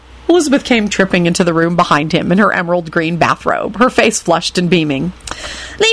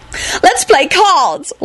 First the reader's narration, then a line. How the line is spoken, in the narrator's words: Elizabeth yelled joyfully to no one in particular